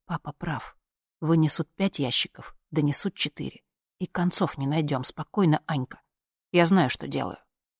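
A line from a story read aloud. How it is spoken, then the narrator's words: Low voice. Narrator (Russian): сказал вполголоса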